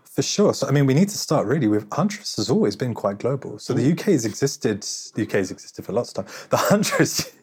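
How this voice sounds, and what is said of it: British English accent. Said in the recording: “You don't have a North American accent. You've got a lovely King's English accent”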